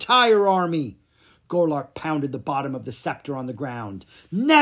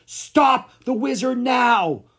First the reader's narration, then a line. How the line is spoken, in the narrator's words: Golart shouted to his army